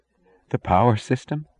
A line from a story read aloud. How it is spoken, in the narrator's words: she said, choking